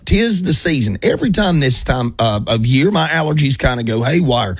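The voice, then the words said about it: Raspy, hoarse voice. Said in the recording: “I don't typically sound like this ... you can probably tell my voice is, well, all kinds of battered up ... make my voice less raspy”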